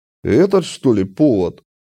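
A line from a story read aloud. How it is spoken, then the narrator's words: Sarcastic snort, bouncer. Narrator (Russian): Саркастически хмыкнул вышибала клуба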